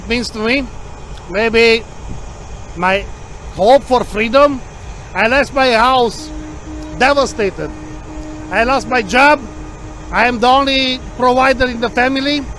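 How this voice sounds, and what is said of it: Romanian-Hungarian accented English. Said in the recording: “I'm sensing an accent. ... From Romania. I born in Romania and my nationality is Hungarian. ... I broke the English.”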